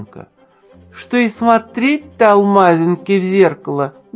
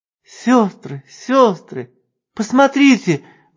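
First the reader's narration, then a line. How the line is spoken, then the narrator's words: Sudden guilty babbling. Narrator (Russian): внезапно залепетала более всех чувствовавшая себя виноватой алмазинка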